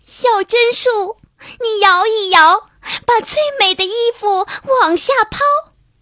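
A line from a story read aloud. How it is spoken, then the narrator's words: Crying out sadly. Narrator (Chinese): 灰姑娘难过极了…哭着叫道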